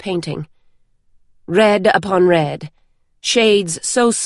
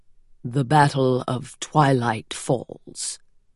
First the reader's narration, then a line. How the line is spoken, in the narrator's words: Larimar said quietly